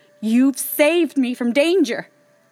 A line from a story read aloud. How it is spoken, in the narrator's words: cried Vasilisa